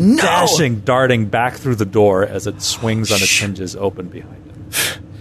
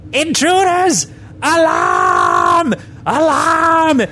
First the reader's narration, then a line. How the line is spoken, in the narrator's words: he screams